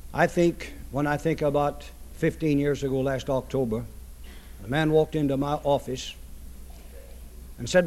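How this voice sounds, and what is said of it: Hoarse voice from laryngitis. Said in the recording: “when came my time to talk with this laryngitis, I wasn't able to say much”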